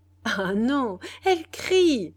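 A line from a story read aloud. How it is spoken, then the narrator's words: Laughing reply. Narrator (French): répondit Benedetta en riant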